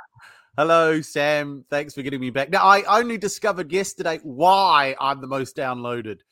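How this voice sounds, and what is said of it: New Zealand accent. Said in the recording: “the Kiwi accent is the sexiest accent in the world”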